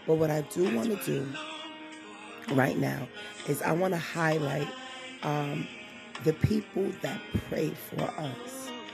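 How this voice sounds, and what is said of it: Strained, sore-sounding voice. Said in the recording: “I know you guys hear my voice. I, it sounds like I'm struggling a bit ... my voice is a little bit on the sore side”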